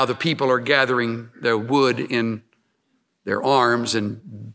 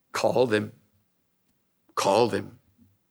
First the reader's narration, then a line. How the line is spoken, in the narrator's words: calmly said